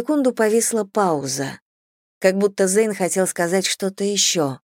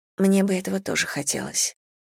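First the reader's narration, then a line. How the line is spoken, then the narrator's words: Muttered. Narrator (Russian): пробормотала я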